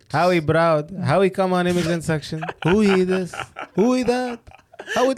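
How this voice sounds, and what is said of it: Impersonates a Pakistani cleric's voice. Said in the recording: “The impersonation that you did was a Maulvi Saab.”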